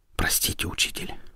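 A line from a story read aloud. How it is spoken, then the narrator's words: Whisper. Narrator (Russian): прошептал он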